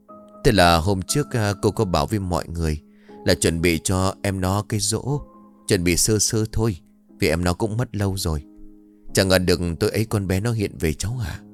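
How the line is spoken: Sniffling, sighing woman. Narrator (Vietnamese): Người đàn bà sụt sịt như nhớ lại điều gì rồi thở dài tiếp

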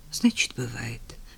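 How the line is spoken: Sighing. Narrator (Russian): вздохнул Женя

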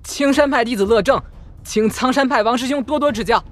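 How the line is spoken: Tense but forceful, loud. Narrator (Chinese): 乐正有些紧张僵硬，却也气势十足地 大声道

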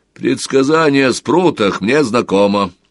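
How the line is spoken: Dry reply. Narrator (Russian): сухо ответил отец Алкис

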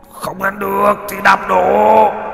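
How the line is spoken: Monster roaring. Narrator (Vietnamese): Đại yêu cốt gầm lên

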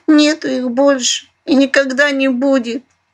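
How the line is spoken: Loud sobbing. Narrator (Russian): громко всхлипнула Айдзулидзе

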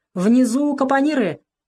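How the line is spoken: Shouted out. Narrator (Russian): выкрикнул Веня

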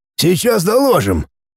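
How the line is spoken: Hoarse. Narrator (Russian): хрипло сказал человек

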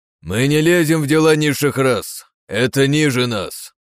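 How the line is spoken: Deep booming voice. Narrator (Russian): прогудел второй

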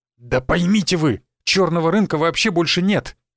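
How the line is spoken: Exclaimed. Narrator (Russian): воскликнул Сергей Станиславович

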